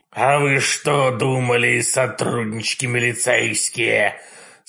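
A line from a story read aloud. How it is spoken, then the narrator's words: Sympathetic grumbling raven. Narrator (Russian): Сочувственно проворчал ворон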